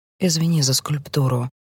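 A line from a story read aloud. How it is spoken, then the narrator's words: Barely audible. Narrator (Russian): едва слышно говорю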